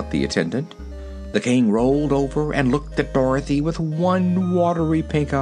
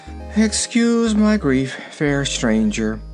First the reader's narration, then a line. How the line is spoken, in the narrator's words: he said in a sad voice